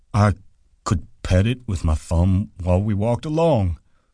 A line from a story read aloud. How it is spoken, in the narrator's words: said Lenny